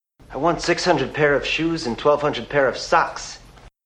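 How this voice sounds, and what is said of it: Unconvincing pretentious New England accent. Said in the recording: “pretending to do a very pretentious New England accent, which didn't really pull off all that well”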